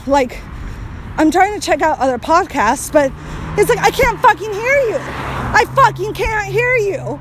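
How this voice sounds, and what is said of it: Yelling, loud agitated speech. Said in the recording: “It's getting really, really traffic heavy, and you might not be able to hear me, so that's kind of why I'm yelling too. I mean, I am riled up too”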